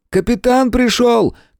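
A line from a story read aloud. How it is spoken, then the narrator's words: Shout from doorway. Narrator (Russian): крикнул от двери сын Сейерза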